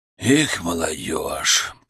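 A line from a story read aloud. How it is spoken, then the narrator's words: Muttered. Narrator (Russian): пробормотал он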